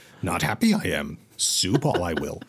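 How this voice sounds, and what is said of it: Yoda-style voice lacking grumble. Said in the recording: “I can't do my Yoda voice now because I have a... See, I can't get the grumble out because my throat is wrong.”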